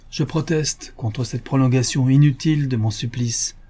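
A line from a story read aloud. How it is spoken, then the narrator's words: Exclaimed in a ringing voice. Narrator (French): s'écria Bill d'une voix sonore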